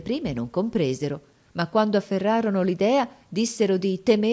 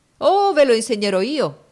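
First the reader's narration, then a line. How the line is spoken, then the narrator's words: Man exclaiming. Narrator (Italian): egli esclamò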